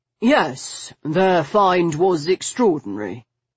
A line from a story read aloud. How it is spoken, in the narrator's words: Soker said smoothly